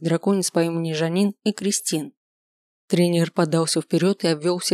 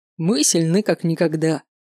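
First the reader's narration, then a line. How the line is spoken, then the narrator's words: Pleased short laugh. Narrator (Russian): довольно хохотнул мистер Эйлор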